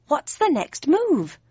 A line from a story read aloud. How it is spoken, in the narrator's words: I said more urgently